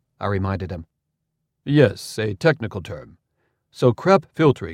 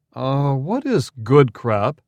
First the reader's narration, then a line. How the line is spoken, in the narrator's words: Arcipolt asked in a politely incredulous tone